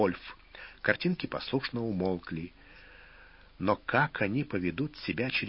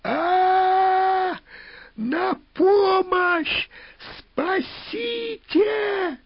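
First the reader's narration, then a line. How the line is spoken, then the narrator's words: Hysterical scream. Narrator (Russian): истерично закричала она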